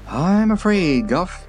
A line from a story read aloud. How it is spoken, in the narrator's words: said rather anxiously